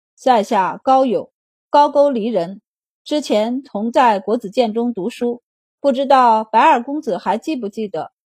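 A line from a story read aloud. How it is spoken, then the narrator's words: Faintly smiling. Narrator (Chinese): 高友，他笑容微淡道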